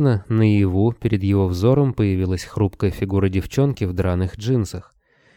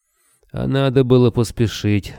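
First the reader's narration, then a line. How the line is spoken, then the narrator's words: Gloomy declaration. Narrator (Russian): мрачно заявил Григорий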